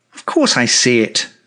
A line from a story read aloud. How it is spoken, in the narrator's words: I said sharply